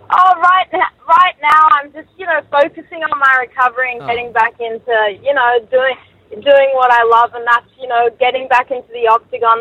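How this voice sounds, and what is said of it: Australian accent. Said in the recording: “Australian girl with a great accent.”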